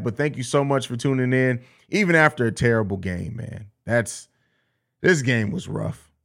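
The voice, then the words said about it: Hoarse, strained, fading voice. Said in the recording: “As you can hear, my voice is going out ... Back to back, still kill my voice”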